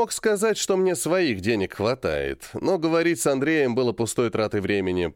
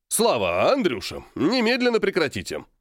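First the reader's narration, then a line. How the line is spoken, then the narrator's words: Angry grandfather barking. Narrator (Russian): рявкнул разозлившийся дедушка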